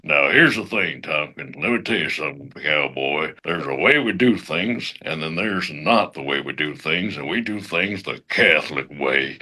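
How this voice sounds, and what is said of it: Imitates a cowboy actor's voice. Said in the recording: “since it was a cowboy ... my best Sam Elliott impression”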